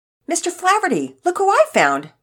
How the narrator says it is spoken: Pearson said excitedly

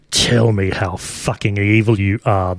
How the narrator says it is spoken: the Wearfly growls

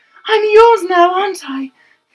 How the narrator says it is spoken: Felicia gasped

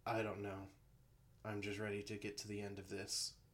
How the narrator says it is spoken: Bo said with a sigh

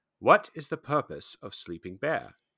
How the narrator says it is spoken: asked calmly

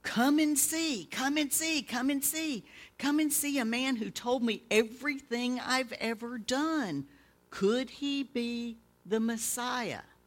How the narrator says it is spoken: she shouted

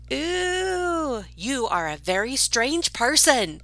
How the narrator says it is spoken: the little boy was yelling back

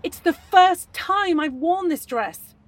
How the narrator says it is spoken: she added furiously

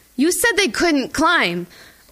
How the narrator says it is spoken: I shout, wanting to blame anyone but myself

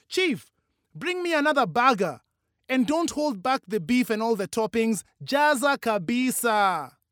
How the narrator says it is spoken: Over the booming music, she shouted at a waiter

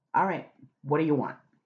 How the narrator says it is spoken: he snapped

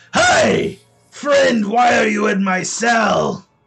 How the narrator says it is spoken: he shouts out

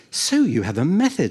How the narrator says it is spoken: Anselmo said eagerly

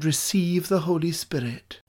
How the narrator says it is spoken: when Jesus breathed on the disciples and he said

